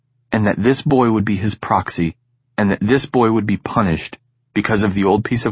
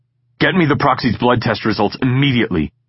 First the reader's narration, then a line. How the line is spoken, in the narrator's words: he snapped at the nurse